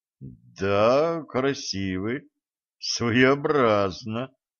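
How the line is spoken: Forced, reluctant praise. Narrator (Russian): выдавил из себя ведун

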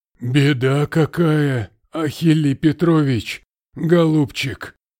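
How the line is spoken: Breathless exclamation. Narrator (Russian): выдохнул он

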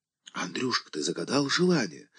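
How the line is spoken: Sudden whisper in ear. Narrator (Russian): вдруг зашептала в самое ухо

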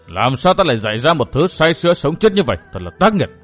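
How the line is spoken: Angry low snap. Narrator (Vietnamese): Trên mặt Phong Hàn Tinh xuất hiện vẻ giận dữ, trầm giọng gắt

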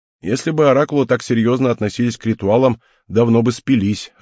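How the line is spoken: Laughing. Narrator (Russian): рассмеялся Герард

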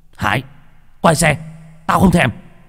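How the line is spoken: Shout. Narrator (Vietnamese): Bình quát

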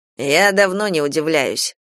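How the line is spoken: Grumbling. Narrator (Russian): проворчал Кейран

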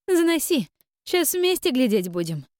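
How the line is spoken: Laughing reply. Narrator (Russian): Хохотнув, ответила Таша

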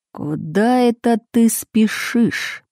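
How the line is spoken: Through gritted teeth. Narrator (Russian): процедил Бритый

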